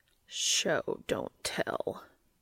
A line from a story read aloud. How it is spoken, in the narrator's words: Cass growled